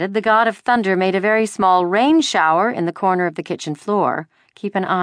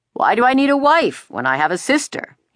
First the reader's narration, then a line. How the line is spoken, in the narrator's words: He asked in his booming voice